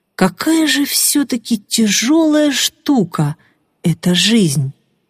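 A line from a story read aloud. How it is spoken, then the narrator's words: Thoughtful drawl. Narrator (Russian): задумчиво протянул Виктор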